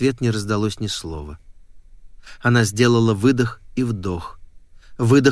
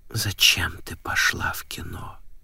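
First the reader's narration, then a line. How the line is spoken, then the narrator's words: Whispered question. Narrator (Russian): спросил шепотом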